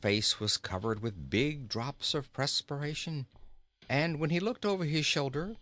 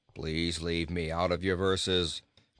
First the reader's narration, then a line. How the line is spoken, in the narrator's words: said Bilbil with a snort of anger